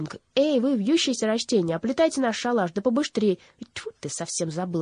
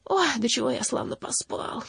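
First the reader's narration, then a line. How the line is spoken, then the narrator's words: Muttering. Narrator (Russian): пробормотал Данор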